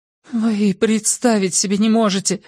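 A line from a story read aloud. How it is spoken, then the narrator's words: Trembling voice. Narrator (Russian): дрожащим голосом выговорила Хиллари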